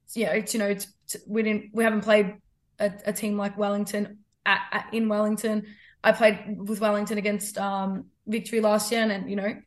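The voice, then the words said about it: Strained, worn-out voice. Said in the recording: “sometimes I just talk my own tongue off ... That's where my voice went”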